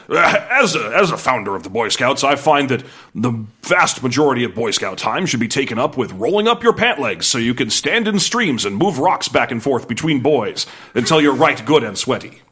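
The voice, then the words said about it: Imitates another person's voice. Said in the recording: “a little Baden-Powell accent”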